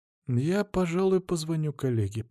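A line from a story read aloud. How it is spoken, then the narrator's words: Muttering. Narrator (Russian): пробормотал профессор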